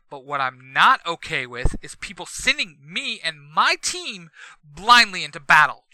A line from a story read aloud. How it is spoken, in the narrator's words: Jason shouts